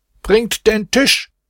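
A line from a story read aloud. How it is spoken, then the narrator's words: Shouted. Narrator (German): Hierauf schrie er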